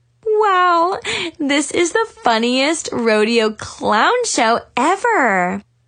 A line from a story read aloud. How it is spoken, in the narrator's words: Tiffany giggled